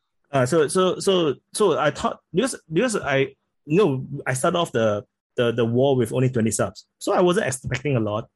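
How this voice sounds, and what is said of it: Singaporean accent. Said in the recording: “I speak with a Singaporean accent ... my accent is still weird”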